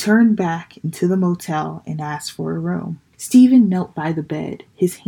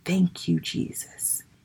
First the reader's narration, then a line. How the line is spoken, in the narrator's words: whispered